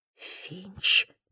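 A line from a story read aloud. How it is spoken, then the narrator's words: Muttering under breath. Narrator (Russian): пробормотала Блэквелл себе под нос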